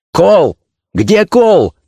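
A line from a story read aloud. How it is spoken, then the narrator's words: Shout. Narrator (Russian): крикнул Георгий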